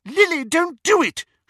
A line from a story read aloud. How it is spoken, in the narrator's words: shrieked the elder of the two